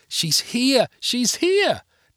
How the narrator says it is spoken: Natalie squealed

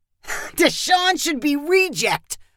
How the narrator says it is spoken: Kyle said with a laugh

